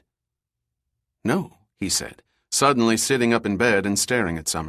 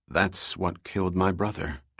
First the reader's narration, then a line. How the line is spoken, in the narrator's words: Trevor said solemnly